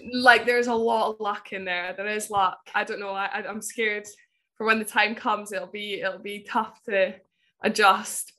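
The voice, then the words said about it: Scottish accent. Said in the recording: “a legendary Scottish second row with a Scottish accent”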